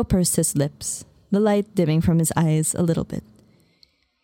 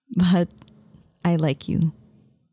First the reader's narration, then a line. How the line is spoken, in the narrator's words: I said